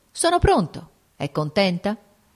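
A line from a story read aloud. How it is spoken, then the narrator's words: Curt voice. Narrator (Italian): riprese con voce breve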